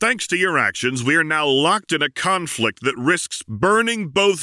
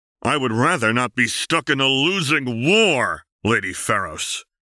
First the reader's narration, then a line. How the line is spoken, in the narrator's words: Jace said through his teeth